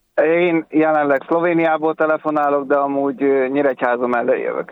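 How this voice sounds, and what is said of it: Slight regional accent. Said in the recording (Hungarian): “Ismerős hát, a akcentusod. ... Hát, valami kis akcentus. Valami van.”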